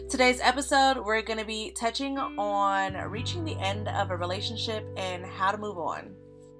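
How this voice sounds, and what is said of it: Sick, slightly off voice. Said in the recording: “I was recently sent home early because I was sick... if my voice sounds a little out of whack”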